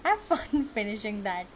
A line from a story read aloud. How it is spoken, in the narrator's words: says with a laugh